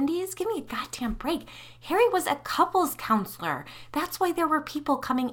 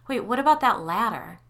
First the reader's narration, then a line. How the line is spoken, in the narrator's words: She laughed